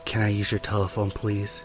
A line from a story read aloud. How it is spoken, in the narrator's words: in almost a whisper goes